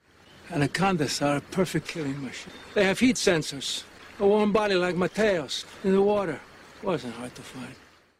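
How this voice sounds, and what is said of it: Odd bayou-style put-on accent. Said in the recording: “he's doing an accent ... What is the accent? ... it's kind of a bayou thing”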